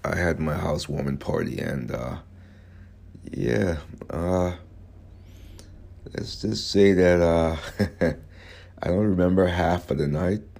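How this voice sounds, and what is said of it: Hoarse voice. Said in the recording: “My voice is kind of hoarse”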